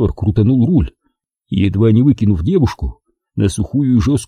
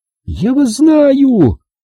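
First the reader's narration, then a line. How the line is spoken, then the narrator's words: Howling. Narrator (Russian): взвыла Валерий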